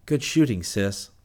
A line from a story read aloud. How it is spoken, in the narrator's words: exclaim